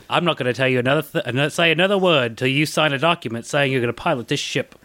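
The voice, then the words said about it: Michael Caine impression. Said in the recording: “great ... impression ... Michael Caine ... That wasn't really my best”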